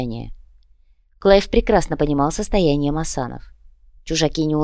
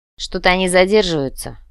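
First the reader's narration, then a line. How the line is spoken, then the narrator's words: Grumbling. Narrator (Russian): пробурчал Дитер Бруджа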